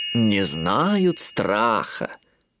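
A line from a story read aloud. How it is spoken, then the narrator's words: Drawling. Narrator (Russian): протянула Малли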